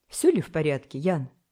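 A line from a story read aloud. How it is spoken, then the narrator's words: Alarmed exclamation. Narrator (Russian): воскликнул встревоженный Вельмовский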